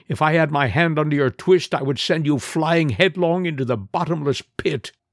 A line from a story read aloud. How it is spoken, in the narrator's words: he cried